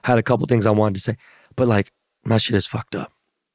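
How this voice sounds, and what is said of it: Damaged, strained voice. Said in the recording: “my voice is fucked up”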